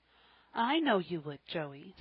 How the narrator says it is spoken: said Polly kindly

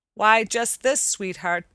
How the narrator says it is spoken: returned the sailor gravely

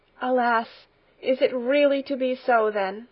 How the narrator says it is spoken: sighed the grandmother

